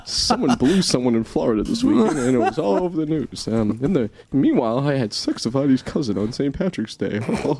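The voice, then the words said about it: Impression of Adam Mallett. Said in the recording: “Do you want to hear my impression of Adam Mallett?”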